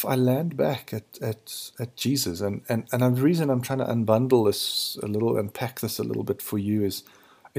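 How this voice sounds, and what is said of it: Low husky early-morning voice. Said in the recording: “Sorry, forgive my voice. It's very, very early in the morning... So I've got my uh, sexy voice on.”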